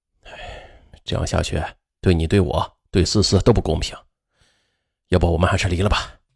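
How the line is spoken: Deep sigh. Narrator (Chinese): 姚明国深深的叹了口气，对妻子说

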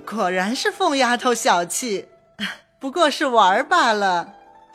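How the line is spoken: Laughing. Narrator (Chinese): 薛姨妈笑道

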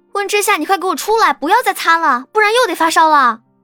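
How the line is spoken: Loud shout from outside. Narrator (Chinese): 于婷婷在外面高声的喊

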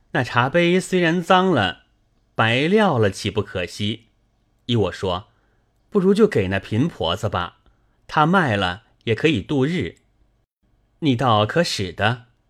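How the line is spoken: Apologetic smile. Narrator (Chinese): 宝玉和妙玉陪笑道

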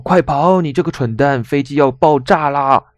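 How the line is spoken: Crying shout. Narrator (Chinese): 一声哭声

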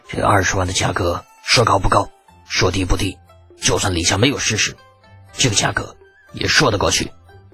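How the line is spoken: Hoarse. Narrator (Chinese): 一个沙哑的声音说道

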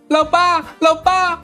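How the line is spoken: Frightened, crying apology. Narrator (Chinese): 儿子吓得直哆嗦，哭着跟老爸道歉

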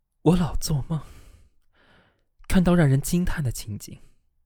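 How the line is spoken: Lamenting. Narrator (Chinese): 贝亚特里斯哀叹的继续说道

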